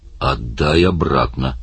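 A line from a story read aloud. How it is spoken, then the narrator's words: Grumbling. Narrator (Russian): проворчал Оттор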